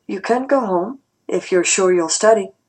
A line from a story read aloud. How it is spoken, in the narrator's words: he looked a little uncomfortable, after a few seconds of silence, he said calmly